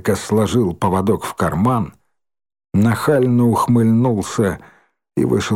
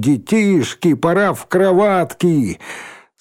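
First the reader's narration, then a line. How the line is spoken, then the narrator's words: Laughing loudly. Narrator (Russian): Захохотал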